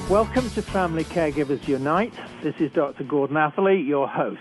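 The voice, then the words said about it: British accent. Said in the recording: “I'm a physician trained in Britain, as I'm sure you can tell from my accent.”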